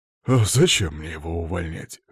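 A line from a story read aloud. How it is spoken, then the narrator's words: Snorting reply. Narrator (Russian): хмыкнул в ответ Ланцов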